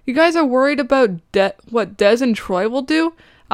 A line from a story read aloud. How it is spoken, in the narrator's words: Alex shouts